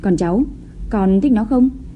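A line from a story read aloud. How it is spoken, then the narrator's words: Forced smile. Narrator (Vietnamese): Chu Tông Đường cố mỉm cười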